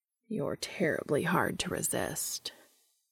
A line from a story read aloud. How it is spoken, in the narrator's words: he says with his voice low